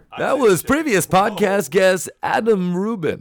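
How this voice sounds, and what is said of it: Radio announcer voice. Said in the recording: “trying to do the radio voice”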